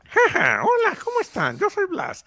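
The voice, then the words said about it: Cartoon rabbit character voice. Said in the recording (Spanish): “como yo hacía la voz de conejo”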